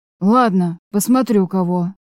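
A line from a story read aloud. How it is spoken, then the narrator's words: Grumbling mutter. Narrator (Russian): пробурчал Арей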